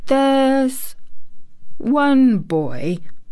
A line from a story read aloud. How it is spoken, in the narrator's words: he said quite slowly, as if he were thinking over every word